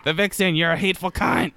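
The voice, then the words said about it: Imitates another person's voice. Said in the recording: “my Bianca Del Rio impression”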